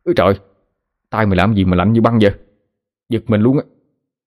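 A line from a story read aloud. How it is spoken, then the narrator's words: Startled yelp. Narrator (Vietnamese): la lên một cái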